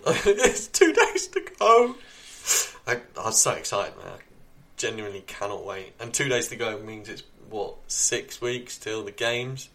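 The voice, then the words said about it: Strained, cracking voice. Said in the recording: “My voice is falling apart on the podcast. This is horrendous.”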